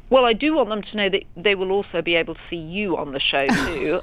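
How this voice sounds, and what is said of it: British accent. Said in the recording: “her fab British accent”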